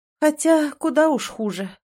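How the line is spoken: Tired. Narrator (Russian): устало произнесла она

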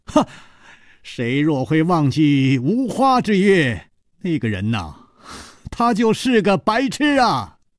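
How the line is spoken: Loud laughing call. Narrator (Chinese): 楚留香在水面上露了露头，高声笑道

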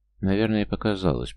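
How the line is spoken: Mumbled. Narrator (Russian): промямлил Пермяков

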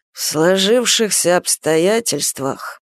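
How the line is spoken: Grumbling. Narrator (Russian): пробурчал Камышин

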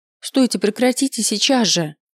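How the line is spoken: Exclaiming. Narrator (Russian): воскликнул

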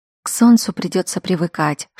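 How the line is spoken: Whispering. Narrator (Russian): шепнула

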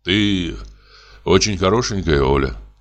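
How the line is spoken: Sighing. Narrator (Russian): вздохнул я

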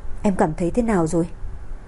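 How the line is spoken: Familiar voice. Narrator (Vietnamese): Âm thanh quen thuộc truyền đến bên tai

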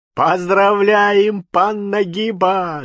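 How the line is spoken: Shouting with loud laughter. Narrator (Russian): закричали с громким хохотом поляки

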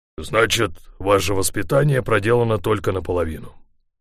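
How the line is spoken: Dry reply. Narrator (Russian): сухо ответил он

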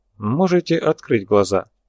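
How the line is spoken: Calm. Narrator (Russian): спокойно произнес Ганджабов

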